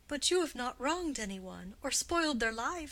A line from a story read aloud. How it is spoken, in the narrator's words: said Gwendolen hastily